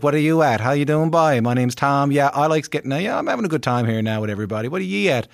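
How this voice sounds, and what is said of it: Newfoundland accent. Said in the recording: “I'm from Newfoundland and in the east coast of Canada ... I can get a little bit like this ... I kind of talk like that.”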